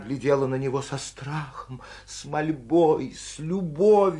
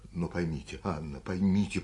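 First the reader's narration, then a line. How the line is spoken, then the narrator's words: Hurried undertone. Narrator (Russian): проговорил он вполголоса, торопясь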